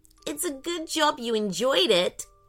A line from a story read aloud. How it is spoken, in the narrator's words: giggled Ellie